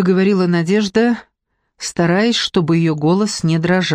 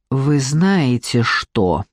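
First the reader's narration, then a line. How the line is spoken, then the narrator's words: Through gritted teeth. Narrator (Russian): процедил мужчина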